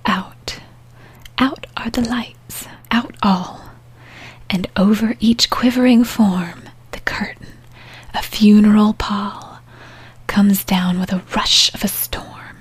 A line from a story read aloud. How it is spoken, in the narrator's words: Briley laughs very softly, but for no ears but her own, and then she whispers more quietly still